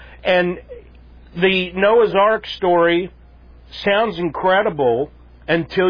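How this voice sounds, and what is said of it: Usual voice. Nothing is said of it.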